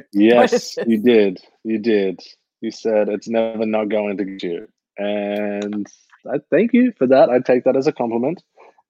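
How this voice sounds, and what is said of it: Convincing American accent. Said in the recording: “your American accent is good”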